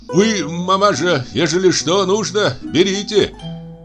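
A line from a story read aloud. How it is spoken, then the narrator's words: Deaf man shouting. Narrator (Russian): глухой крикнул ей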